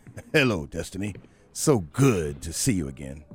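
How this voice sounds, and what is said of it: Sarcastic greeting. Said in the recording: “I'm being sarcastic”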